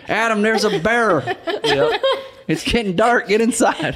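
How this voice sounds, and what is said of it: Put-on redneck voice. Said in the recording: “your impression of me ... that redneck voice”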